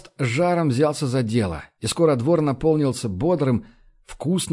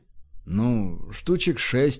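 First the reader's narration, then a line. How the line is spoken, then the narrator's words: Very unsure. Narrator (Russian): предположил Баст ужасно неуверенным тоном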